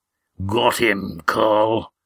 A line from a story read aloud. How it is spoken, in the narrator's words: grunted a rough voice